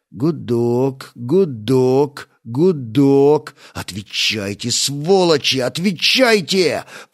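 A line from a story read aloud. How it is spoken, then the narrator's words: Hissed through teeth. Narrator (Russian): прошипел сквозь зубы Стас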